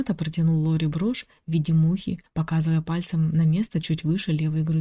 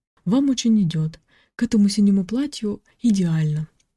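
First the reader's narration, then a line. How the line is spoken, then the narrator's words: Joyful exclamation. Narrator (Russian): воскликнул радостно Рената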